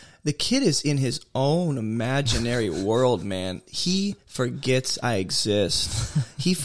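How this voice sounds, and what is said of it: Usual voice. Nothing is said of it.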